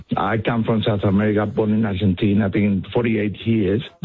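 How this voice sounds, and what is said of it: Strong Spanish accent. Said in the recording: “I have a very strong Spanish accent.”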